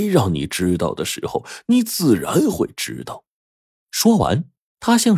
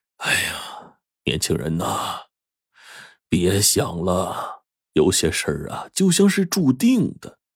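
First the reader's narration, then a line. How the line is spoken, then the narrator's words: Old man sighing. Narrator (Chinese): 老爷子就叹道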